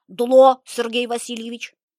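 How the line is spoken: Loud answer. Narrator (Russian): Так же громко ответил Семенов

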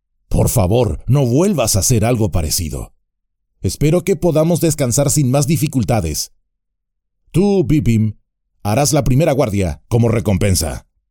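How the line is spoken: Growled. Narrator (Spanish): gruñó

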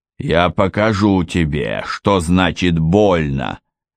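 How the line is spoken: Roar. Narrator (Russian): взревел Гровер

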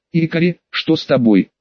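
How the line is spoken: Frightened girl asking. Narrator (Russian): испуганно спросила девочка

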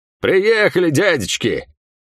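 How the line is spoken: Old ferryman's dashing bark. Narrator (Russian): залихватски гаркнул пожилой паромщик

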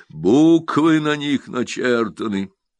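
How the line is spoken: Sepulchral voice. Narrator (Russian): могильным голосом говорит председатель

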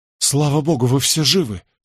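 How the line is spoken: Relieved exhale. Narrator (Russian): с облегчением выдохнул я

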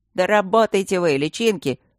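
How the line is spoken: Barked. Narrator (Russian): рявкнул Якоши

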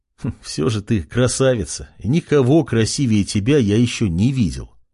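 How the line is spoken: Young man chuckling, sighing. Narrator (Russian): хохотнул парень и вздохнул

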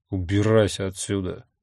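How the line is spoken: Muttered. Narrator (Russian): буркнул я

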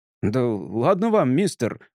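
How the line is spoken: Pleading mumble. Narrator (Russian): умоляюще пробормотал бармен

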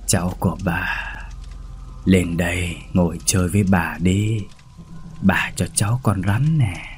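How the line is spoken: Soft chilling deep voice. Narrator (Vietnamese): cười khe khẽ rồi nói với chất giọng sâu thẳm đến lạnh người

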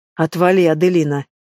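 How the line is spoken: Growling. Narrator (Russian): прорычал Хансен

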